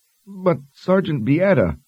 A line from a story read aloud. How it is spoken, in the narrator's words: Annette whined